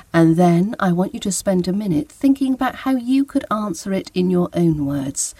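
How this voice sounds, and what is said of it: British English accent. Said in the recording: “your British English accent with mine”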